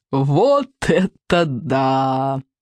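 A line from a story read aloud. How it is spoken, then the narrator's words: Guffawing. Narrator (Russian): захохотал Сморкала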